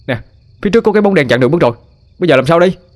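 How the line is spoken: Shouting. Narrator (Vietnamese): Khải hét lên cho cô gái nghe

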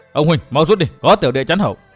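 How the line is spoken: Loud shout. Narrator (Vietnamese): Địch Tuân thét vang

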